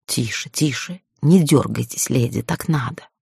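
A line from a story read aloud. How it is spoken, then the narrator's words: Whisper in ear. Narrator (Russian): прошептал Гарлей мне на ухо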